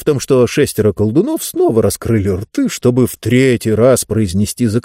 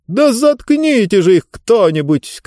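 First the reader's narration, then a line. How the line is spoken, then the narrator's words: Shouted. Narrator (Russian): крикнула книга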